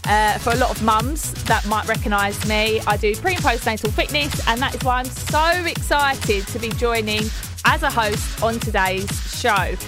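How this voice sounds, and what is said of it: Essex accent. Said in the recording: “As you can probably hear, this isn't Gabby ... my Essex twang”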